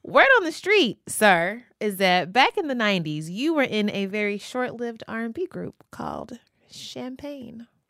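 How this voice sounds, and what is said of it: Kentucky accent. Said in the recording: “I just pissed off a Kentucky lady. ... Accent is coming out.”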